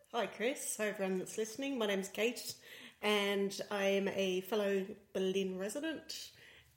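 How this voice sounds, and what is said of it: Australian accent. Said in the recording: “as you can probably guess by my accent, I'm Australian”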